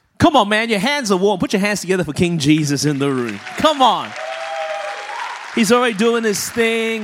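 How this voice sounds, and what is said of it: Australian accent. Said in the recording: “I was born and raised in Melbourne, Australia. That's the reason my voice is this way.”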